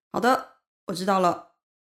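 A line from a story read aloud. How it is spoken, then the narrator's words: Shouting with full force. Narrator (Chinese): 我用尽全力对着听筒大喊着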